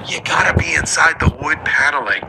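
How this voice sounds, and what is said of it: Whispered imitation of another person. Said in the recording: “Now I'm doing the Biden whisper.”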